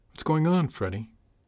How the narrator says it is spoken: She sighed

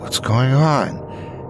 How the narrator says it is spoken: she said sleepily

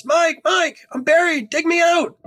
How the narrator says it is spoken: I yelled into the darkness

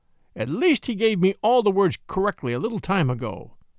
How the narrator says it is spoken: said Bagheera impatiently

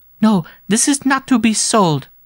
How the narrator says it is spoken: cried the little girl

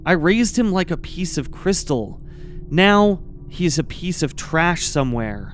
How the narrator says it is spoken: She reflected sadly

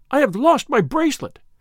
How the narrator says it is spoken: she cried in Italian

